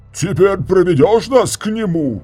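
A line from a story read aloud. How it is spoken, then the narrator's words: Yelling. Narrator (Russian): заорал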